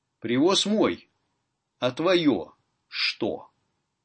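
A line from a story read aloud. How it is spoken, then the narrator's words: Agreeing with a smirk. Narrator (Russian): согласился Семен Егорыч и усмехнулся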